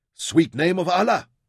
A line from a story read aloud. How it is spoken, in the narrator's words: Rahmad shouted